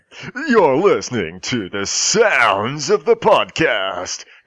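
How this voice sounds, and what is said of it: Put-on American DJ accent. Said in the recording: “that's with an American accent. That doesn't work, does it?”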